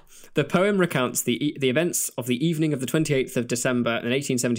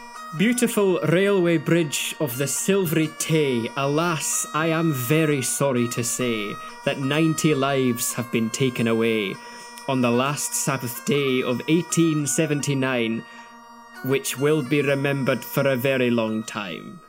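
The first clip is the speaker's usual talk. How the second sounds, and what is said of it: Deliberately bad Scottish accent. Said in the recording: “I will have to do a really dreadful Scottish accent to do it justice.”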